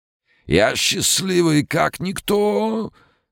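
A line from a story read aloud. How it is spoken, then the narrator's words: Hoarse singing. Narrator (Russian): Хриплым голосом спел певец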